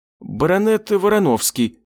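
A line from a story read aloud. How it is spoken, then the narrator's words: Embarrassed mumble. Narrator (Russian): промямлил он, отчего-то покраснев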